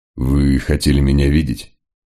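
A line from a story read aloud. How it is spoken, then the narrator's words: Deliberately calm, casual. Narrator (Russian): Мегре старался говорить спокойно, как человек, пришедший в гости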